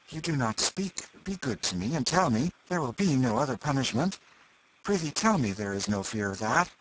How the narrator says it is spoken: He said eagerly

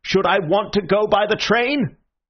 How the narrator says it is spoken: roared the other

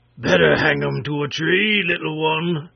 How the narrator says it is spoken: shouted Wool Take'em in his big voice

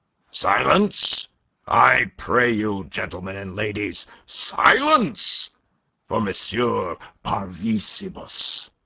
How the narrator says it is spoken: roared Monsieur Binet

